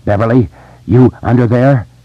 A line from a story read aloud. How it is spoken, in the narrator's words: Each word separated from the last by an out-of-breath gasp for air